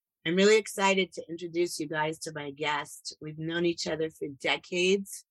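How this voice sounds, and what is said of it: Voice hoarse from a bad cold. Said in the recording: “I've got a bad cold today ... the role of Pleasant Gemin will be played by Marlon Brando as Vito Corleone in The Godfather”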